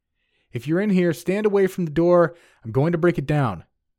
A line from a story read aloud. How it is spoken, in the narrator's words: I yelled